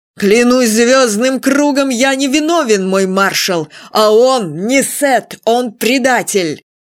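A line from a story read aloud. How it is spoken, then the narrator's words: Shouting. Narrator (Russian): он крикнул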